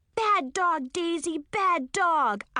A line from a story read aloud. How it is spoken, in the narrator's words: I yelled